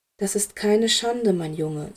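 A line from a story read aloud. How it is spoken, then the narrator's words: Gentle. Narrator (German): sagte Dumbledore sanft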